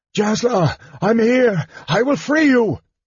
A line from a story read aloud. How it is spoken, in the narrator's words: Barum screamed